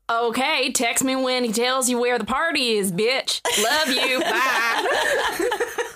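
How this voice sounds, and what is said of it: Put-on Southern US accent. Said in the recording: “Definitely like Southern, maybe more specific than that ... slightly more specific.”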